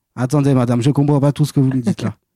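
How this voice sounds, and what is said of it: Put-on Antillean Creole accent. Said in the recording (French): “faire avec un, accent antillais... j'ai dû parler avec l'accent créole... ça a été assez compliqué de parler avec l'accent créole”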